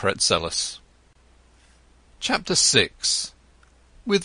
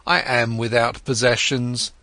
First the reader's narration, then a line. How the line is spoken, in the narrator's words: said Siddhartha